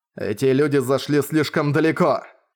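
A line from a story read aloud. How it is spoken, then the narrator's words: Angry shout. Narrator (Russian): гневно прокричал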